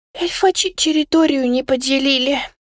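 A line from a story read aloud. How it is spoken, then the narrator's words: Sigh. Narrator (Russian): вздохнул Кусимар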